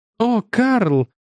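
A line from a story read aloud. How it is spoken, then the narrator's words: Delighted cry. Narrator (Russian): восторженно вскрикнула Бетти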